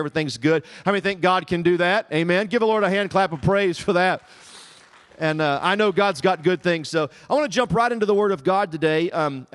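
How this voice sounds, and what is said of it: Southern American accent. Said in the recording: “My accent gives me away ... Did my accent that bad? ... the Southern dialect”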